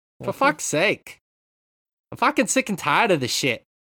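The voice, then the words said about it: Poor half-Boston put-on accent. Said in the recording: “I don't know what accent I'm doing. It's nothing ... Half a Boston accent. It's not very good.”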